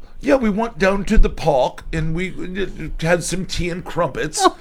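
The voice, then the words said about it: Fancy put-on British accent. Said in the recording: “accents. And especially the British accent. British all accent. ... So I'm gonna hear British ... It's like so fancy.”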